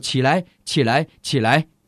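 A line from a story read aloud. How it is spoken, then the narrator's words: Repeated commanding voice. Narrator (Chinese): 一连三次有声音命令我说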